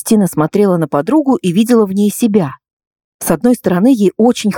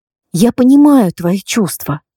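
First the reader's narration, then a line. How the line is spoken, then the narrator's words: Soft. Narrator (Russian): произнесла Кристина мягко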